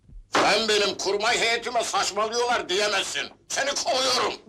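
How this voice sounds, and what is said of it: Shouting angrily. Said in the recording (Turkish): “Bağırmak yok!”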